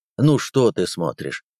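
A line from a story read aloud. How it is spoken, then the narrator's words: Plain. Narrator (Russian): спросил Сергеев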